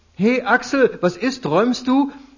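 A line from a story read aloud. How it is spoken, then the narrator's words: Loud, pushy cheerful. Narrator (German): Laut und aufdringlich fröhlich Irmtraut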